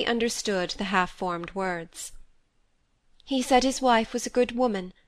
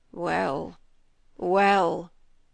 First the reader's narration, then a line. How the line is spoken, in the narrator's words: moaned the squire